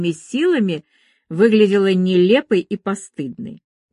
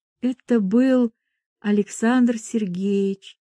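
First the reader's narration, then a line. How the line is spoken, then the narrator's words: Quiet shy voice. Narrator (Russian): тихо сказала она, опустив глаза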